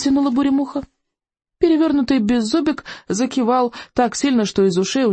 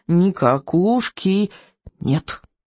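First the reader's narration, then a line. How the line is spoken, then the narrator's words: Solemn declaration. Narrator (Russian): торжественно заявил он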